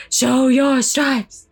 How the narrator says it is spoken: they continued in roar below

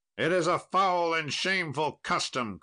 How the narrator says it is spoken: cried Sir Galahad and both his fellows

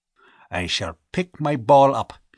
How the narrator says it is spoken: he growled

